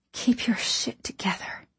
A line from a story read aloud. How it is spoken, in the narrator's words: I whispered to my lungs